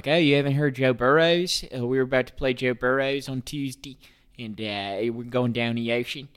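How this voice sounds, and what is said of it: Put-on Baltimore accent. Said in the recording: “the, uh, Baltimore accent? ... that's how they talk.”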